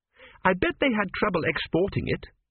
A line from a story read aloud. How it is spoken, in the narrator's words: said Petrachi firmly